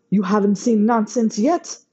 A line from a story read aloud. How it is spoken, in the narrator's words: Sasha shouted over his shoulder